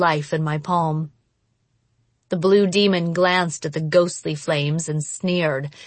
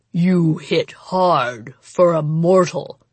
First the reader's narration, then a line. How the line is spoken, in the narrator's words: the monster rumbled